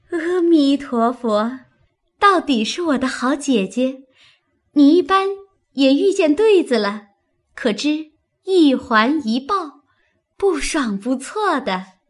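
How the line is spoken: Laughing. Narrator (Chinese): 黛玉笑道

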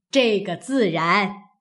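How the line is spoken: Old woman laughing. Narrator (Chinese): 贾母笑道

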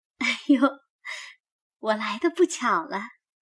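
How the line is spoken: Laughing. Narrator (Chinese): 林黛玉笑道

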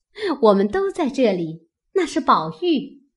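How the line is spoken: Crowd laughing. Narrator (Chinese): 众人笑道

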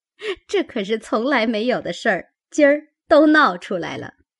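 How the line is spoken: Group laughing. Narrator (Chinese): 众人都笑道

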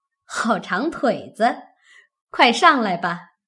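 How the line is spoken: Laughing. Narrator (Chinese): 凤姐笑道

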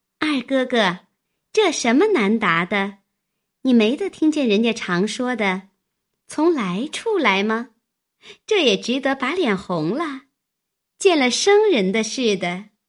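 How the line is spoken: Laughing. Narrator (Chinese): 惜春也笑道

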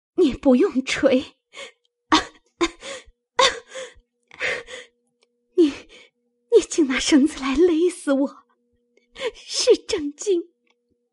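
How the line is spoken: Breathless, panting. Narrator (Chinese): 黛玉喘息了半晌，推紫鹃道

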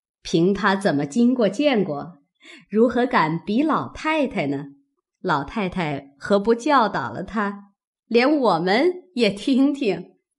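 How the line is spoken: Laughing, several voices. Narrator (Chinese): 薛姨妈等都笑说

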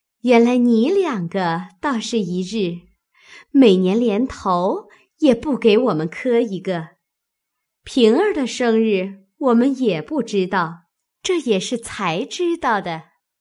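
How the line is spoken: Laughing. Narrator (Chinese): 探春笑道

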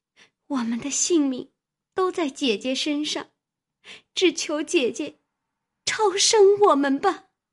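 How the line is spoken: Crying, pleading. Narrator (Chinese): 思琪拉住苦求，哭道

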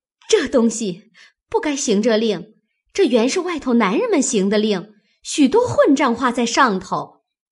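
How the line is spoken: Embarrassed laughing. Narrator (Chinese): 红了脸，笑道

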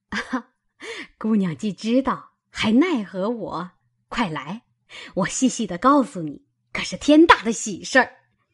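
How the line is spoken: Laughing woman. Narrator (Chinese): 他嫂子笑道

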